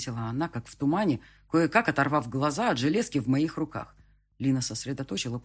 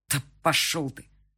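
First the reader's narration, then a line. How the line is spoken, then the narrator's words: Strained, through teeth. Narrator (Russian): процедил я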